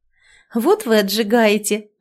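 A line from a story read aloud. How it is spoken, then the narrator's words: Bursting into laughter. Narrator (Russian): расхохоталась и Тоня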